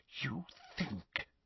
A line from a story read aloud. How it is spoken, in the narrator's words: she whispered